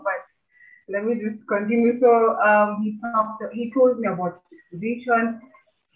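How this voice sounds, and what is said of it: Emotional, choked-up voice. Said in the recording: “I am getting emotional right now”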